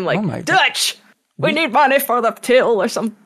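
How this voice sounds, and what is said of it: Southern-accented Arthur Morgan impression. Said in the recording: “he could still do a Southern voice ... I'm Arthur Morgan”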